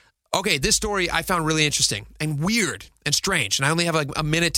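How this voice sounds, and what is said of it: Usual voice. Nothing is said of it.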